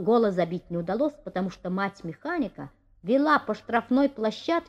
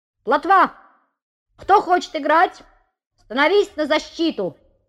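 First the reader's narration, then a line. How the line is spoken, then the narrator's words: Good-natured shout. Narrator (Russian): крикнул подобревший Петя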